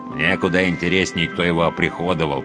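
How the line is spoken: Wary grumbling. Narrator (Russian): проворчал второй, поопытнее и поопасливее

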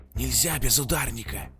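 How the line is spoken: Loud hiss. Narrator (Russian): Громко шипел один

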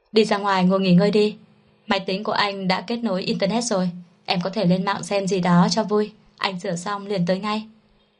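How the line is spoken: Smiling. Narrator (Vietnamese): Mạnh Tư Thành đột nhiên mỉm cười, rồi nói

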